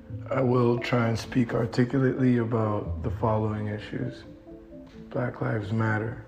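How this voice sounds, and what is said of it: Hoarse, nearly lost voice. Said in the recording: “my voice is gone, lost in protest.”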